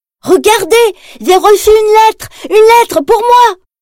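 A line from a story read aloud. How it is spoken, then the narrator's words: Shouting. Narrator (French): crie Tigrou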